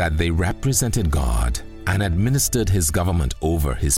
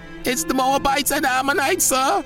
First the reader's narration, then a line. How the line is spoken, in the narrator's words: an excited messenger cried